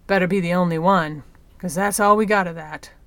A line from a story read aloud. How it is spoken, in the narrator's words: Mawale grumbled bitterly